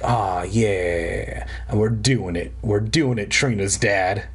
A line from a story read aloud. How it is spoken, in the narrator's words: I hear the house groaning and moaning and being like